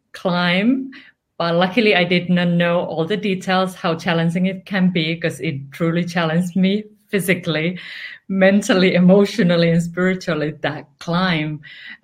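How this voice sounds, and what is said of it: Finnish accent. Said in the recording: “I'm originally from Finland... might have wondered where this accent is from”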